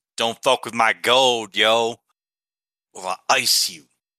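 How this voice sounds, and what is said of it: Strange put-on accent. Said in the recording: “Another strange accent.”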